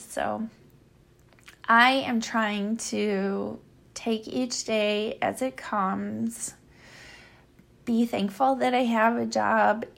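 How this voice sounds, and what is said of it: Tired-sounding voice. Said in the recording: “I'm sure you can hear it in my voice, ... that I'm tired.”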